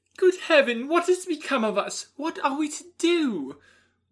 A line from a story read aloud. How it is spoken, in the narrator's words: exclaim in the bitterness of woe